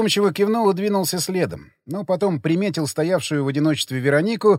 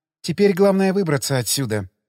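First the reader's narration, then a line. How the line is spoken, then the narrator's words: Sighing. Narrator (Russian): вздохнула Вера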